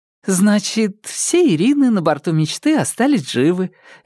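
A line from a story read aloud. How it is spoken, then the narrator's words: Cheerful. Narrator (Russian): весело говорила Маша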